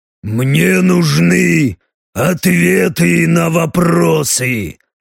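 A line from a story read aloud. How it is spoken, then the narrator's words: Growl. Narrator (Russian): Рыкнул Леха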